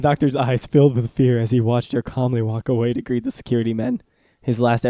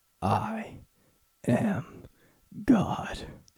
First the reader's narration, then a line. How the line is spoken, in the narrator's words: whispered in his ear